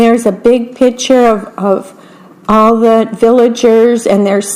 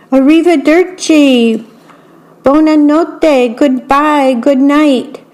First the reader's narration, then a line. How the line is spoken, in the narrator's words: Strega Nona and her two helpers called out